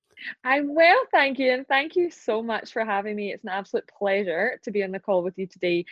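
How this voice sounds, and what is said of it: Strong Scottish accent. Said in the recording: “the Scottish accent is strong, real, and it's here with you.”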